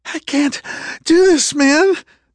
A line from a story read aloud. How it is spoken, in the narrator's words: the kid gasped raggedly